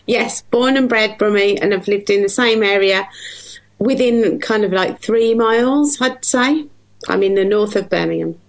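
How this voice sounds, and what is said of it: Broad Brummie accent. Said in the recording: “Really broad Brummie accent.”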